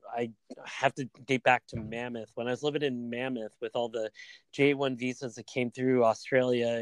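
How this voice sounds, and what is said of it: Usual voice. Nothing is said of it.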